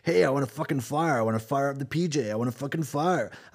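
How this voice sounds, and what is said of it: Mock American guy voice. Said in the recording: “one of those American guys that's like”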